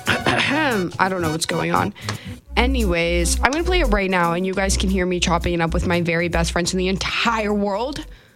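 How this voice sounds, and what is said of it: Hoarse, fading voice. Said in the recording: “I'm also slowly losing my voice as I'm talking.”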